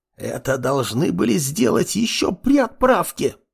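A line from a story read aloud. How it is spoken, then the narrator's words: Hiss, archivist. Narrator (Russian): прошипела архивариус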